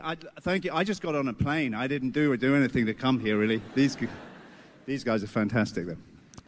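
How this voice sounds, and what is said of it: Stylish accent. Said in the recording (French): “il a un accent stylé”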